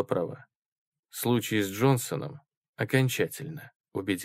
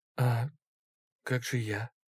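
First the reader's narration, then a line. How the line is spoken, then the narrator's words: Quiet cracked voice. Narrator (Russian): спросила тихим, надтреснутым голосом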